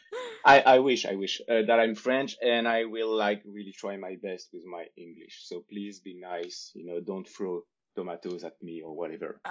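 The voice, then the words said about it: French accent in English. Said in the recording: “you can see with my name and my accent that I'm English, that I'm French”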